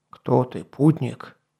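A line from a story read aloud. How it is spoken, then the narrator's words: Muffled, stern. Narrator (Russian): приглушенным строгим голосом спросил он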